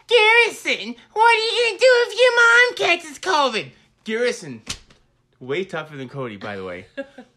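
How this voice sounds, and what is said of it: Imitates another person's voice. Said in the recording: “do my Cody voice”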